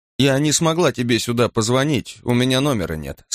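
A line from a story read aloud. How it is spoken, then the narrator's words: Plain. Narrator (Russian): сказала Петра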